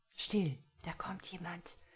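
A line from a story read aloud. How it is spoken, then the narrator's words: Quiet. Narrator (German): sagte Anton leise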